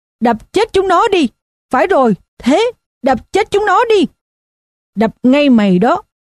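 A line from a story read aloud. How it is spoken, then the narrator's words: Screaming. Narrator (Vietnamese): miệng vẫn tiếp tục gào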